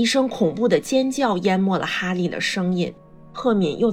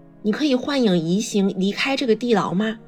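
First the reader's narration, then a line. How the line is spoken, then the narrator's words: Plain. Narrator (Chinese): 他问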